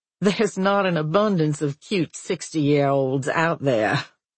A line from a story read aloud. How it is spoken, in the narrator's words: she laughs